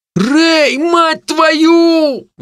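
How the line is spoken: Howled. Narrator (Russian): взвыл Хиниган

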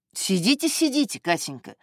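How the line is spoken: Quick. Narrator (Russian): быстро сказал он

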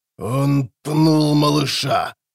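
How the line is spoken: Roar over loud din. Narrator (Russian): зарычало что-то в темноте, перекрывая прямо-таки ураганный рев и вой барбигазов

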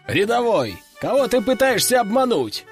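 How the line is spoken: Chuckling. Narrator (Russian): хохотнул он

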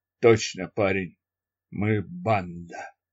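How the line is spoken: Dying wheeze. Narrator (Russian): Джим захрипел и умер

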